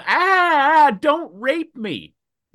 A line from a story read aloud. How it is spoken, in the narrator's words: she starts to scream